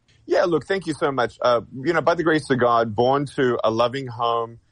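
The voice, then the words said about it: Australian accent. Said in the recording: “I recognize an accent. ... Originally from Australia”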